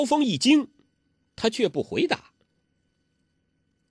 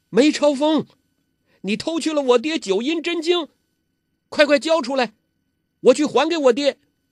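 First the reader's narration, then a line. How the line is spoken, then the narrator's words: Loud shout. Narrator (Chinese): 他就大声叫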